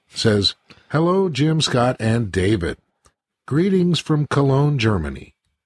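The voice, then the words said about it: American accent. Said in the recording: “Pardon my American accent”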